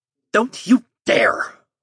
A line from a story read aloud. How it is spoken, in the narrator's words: Fartian snarled